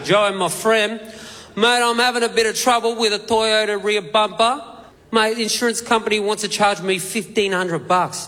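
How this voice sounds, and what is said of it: Put-on Italian ethnic accent. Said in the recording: “pulled out my trusty ethnic accent ... mate, are you Italian? ... mate, you sound Italian”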